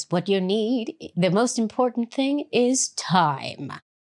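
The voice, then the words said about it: Poor Oprah impression, not deep enough. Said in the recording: “do my Oprah voice ... That was a terrible Oprah voice ... It was terrible ... I can't get that full deep sound”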